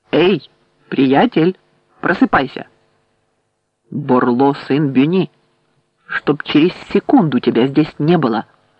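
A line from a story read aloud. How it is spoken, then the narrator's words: With wolfish growling. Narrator (Russian): сопровождавшие их волчье рычание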